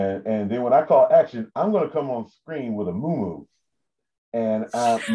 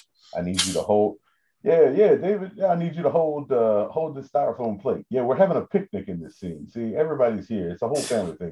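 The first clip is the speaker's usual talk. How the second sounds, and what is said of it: Deep voice imitating another person. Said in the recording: “Is this your Tyler Perry? ... it's just my deep voice.”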